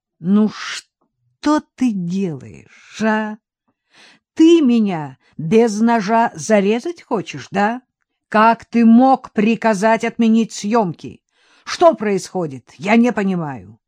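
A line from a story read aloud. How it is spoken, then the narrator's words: Heavy breathing, reproachful. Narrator (Russian): Тяжело дыша, Виктор медленно двинулся к столу, выговаривая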